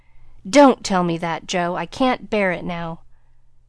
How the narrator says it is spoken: He started as if he had been shot, cried out in a fierce tone

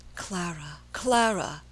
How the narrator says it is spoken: he murmured in a low, pleading voice

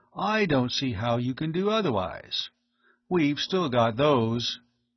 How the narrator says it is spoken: the other added coolly

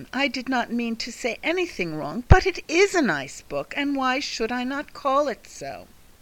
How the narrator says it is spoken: cried Catherine

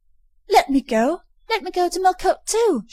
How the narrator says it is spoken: she cried

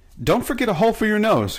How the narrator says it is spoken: cried Betsy

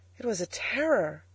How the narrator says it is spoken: cried the Angel

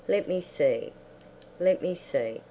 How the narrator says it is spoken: quite an old man murmured

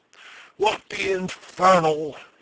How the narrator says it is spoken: he shrieked

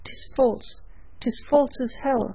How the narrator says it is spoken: he cried

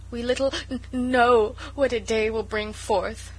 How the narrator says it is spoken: sobbed Sarah

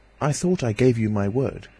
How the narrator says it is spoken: he said

